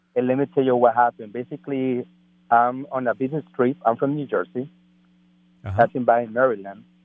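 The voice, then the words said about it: Speaks with an accent. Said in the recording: “Excuse me my accent”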